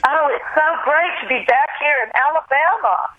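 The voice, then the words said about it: Exaggerated Southern US accent. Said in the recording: “whenever I was in a southern city ... the minute I would say hello to the crowd, there was the accent again ... southern accent”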